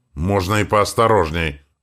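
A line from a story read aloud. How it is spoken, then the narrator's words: Growling. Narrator (Russian): рыкнул я на него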